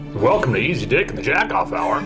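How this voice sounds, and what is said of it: Early morning radio DJ voice. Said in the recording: “That is an early morning radio voice if I ever heard one.”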